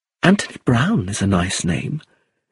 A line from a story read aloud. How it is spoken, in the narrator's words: she said softly